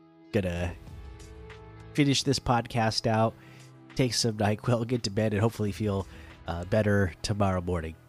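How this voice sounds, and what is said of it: Stuffy, congested voice. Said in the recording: “You could probably hear it in my voice, but I did catch a cold ... it's got me really stuffy right now”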